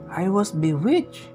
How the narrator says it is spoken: exclaimed the prince

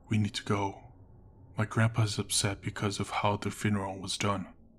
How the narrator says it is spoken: The guarding buddy whispered

